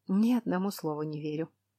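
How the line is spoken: Muttered. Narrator (Russian): пробормотала я

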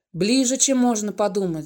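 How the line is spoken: Sighed. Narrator (Russian): вздохнул он

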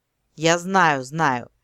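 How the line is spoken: Lazily dismissive. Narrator (Russian): лениво отмахнулся он

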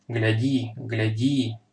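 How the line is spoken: Whispered through clenched teeth. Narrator (Russian): сквозь стиснутые зубы прошептал Магин

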